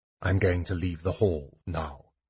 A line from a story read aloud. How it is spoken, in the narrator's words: said softly, speaking for her ears alone